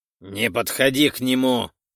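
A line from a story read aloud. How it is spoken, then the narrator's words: Barking shout. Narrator (Russian): рявкнул он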